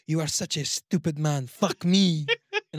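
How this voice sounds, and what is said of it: Put-on French accent speaking English. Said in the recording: “hearing the accent out of desperation is hot ... I love that French accent that's speaking English”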